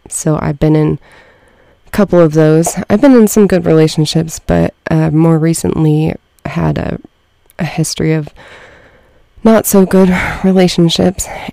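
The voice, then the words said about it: Shaky, nervous voice. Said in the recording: “my voice is so shaky ... a little bit nervous or shaky”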